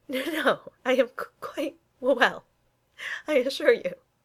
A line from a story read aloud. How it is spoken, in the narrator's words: he stuttered, wiping his streaming eyes